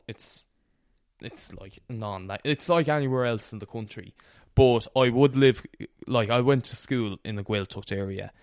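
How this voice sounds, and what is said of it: Irish accent. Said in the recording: “by my accent, you might think I grew up with Irish”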